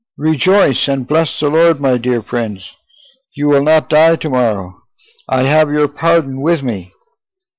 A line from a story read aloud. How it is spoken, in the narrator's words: cried out